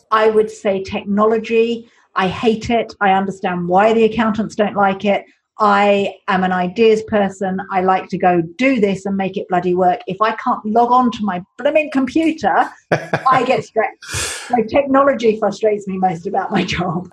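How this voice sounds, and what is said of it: Tense, stressed voice. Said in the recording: “You can hear the tension in your voice.”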